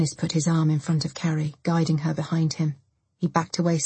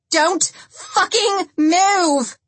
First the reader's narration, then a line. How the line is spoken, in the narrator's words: Lindsay screamed